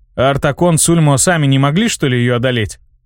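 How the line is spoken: Plain. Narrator (Russian): спросил

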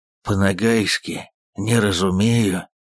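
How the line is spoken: Hoarse rasp. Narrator (Russian): прохрипел Иван

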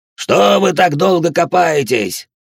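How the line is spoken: Grandfather yelling. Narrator (Russian): орал на них дедушка Дауда

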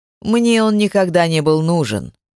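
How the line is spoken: Impatient growl. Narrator (Russian): рыкнул нетерпеливо Кайтиф

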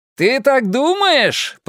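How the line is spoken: Shouted reply. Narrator (Russian): прокричал он в ответ

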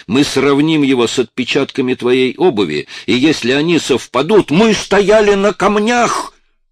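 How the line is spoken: Shouted. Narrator (Russian): выкрикнул Коллинз

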